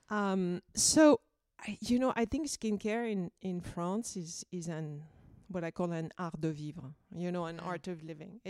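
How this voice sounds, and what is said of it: Thick Parisian French accent. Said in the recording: “this beautiful thick Parisian accent.”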